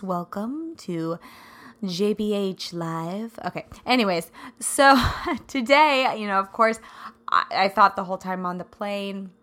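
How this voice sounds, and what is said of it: Scratchy, raspy voice. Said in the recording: “scratchy voice and all ... I sound a little raspy ... It's my radio voice.”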